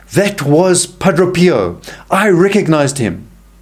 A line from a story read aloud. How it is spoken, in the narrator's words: someone from the crowd shouts